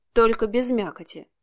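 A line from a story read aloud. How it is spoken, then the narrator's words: Snort. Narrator (Russian): фыркнул Алексей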